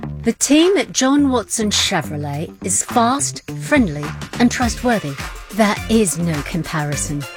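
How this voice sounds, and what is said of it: Put-on English accent. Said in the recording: “That customer didn't have an English accent.”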